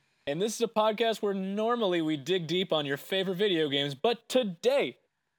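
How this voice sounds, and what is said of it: Usual voice. Nothing is said of it.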